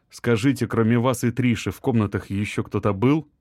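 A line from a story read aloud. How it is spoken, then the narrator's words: Plain. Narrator (Russian): спросил Артем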